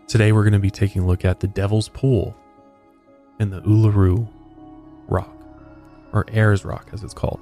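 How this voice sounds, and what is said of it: American accent. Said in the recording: “my very American accent”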